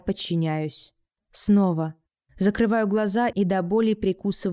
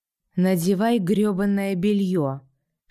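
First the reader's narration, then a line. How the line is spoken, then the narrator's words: Husky rasp. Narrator (Russian): хрипит мой муж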